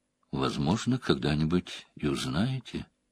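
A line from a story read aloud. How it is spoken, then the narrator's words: Quiet. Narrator (Russian): тихо произнесла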